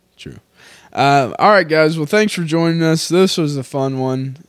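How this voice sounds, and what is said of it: Drunk, slurred speaking voice. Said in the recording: “I over-exaggerate my drunk voice ... while I'm drunk, I'm doing my drunk voice ... You could just talk, and it would sound drunk.”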